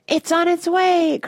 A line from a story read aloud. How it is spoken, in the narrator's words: cried Mr